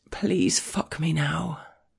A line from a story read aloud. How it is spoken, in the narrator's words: I murmur